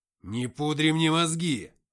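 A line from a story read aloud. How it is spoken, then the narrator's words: Growl. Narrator (Russian): зарычал Тихон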